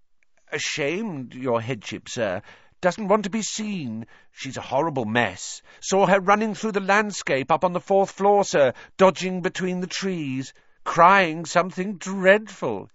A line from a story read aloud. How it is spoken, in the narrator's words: he said happily